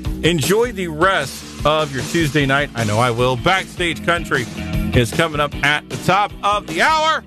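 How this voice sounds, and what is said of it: Yelling, loud excited voice. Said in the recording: “I'm yelling.”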